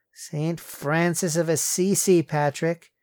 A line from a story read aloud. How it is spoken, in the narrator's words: Courtney groaned